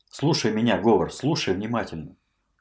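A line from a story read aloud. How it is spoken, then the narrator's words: Whisper. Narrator (Russian): зашептал Вельветов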